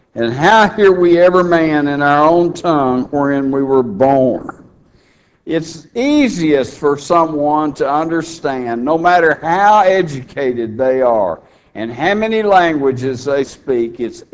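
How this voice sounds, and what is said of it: Texas accent. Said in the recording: “my Texas language that I use... you can tell where I'm from by my language and by my brogue”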